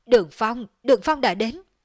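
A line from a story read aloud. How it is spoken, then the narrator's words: Frightened cry. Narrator (Vietnamese): hoảng sợ, kêu lên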